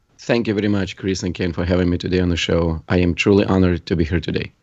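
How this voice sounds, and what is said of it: Russian accent. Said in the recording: “Russian accent”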